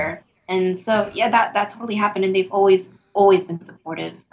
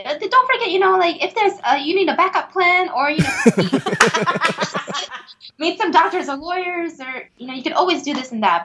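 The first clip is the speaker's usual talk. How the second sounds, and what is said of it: Imitated Asian mom voice. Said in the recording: “love how you went to the Asian mom voice.”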